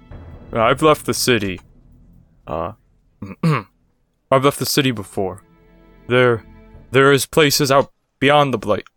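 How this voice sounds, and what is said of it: Odd put-on accent. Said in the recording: “Oh my god, what is that accent?”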